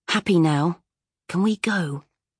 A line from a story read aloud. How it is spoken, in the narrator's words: he whispered